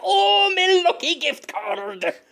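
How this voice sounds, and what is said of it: Movie-style Irish-sounding Scottish accent. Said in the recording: “that's a very Irish-sounding Scottish accent ... it's a very American movie Irish accent-sounding Scottish accent”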